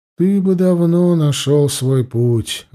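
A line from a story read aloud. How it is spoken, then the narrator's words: Mother sighing. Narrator (Russian): вздохнула мать Мамонтиха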